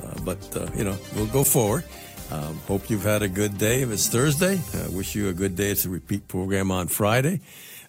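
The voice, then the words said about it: Slightly congested, cold-affected voice. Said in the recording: “I have a little bit of a cold”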